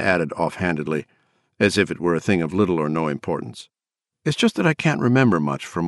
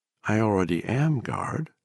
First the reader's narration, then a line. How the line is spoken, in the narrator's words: she said gently